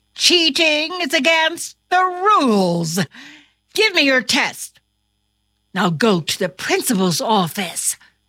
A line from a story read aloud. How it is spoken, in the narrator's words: exclaimed his teacher